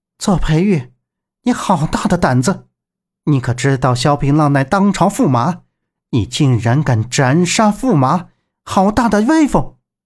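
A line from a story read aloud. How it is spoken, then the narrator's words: Sly chuckle. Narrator (Chinese): 左培玉嘿嘿一笑道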